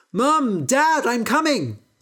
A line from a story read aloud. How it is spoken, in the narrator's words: He shouted